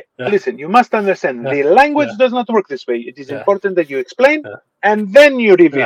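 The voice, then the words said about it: Put-on Greek accent. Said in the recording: “the weird like Greek accent when you're like dropping knowledge on somebody? ... the Greek accent comes into play”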